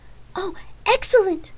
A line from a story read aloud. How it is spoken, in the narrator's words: she exclaimed